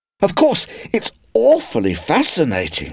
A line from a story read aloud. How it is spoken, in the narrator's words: cried